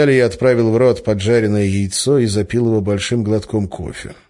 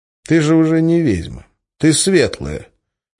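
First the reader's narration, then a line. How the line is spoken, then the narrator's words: Sighing. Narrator (Russian): вздохнул и сказал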